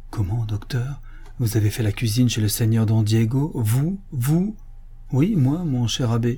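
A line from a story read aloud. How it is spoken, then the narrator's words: Exclaimed. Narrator (French): il s'écria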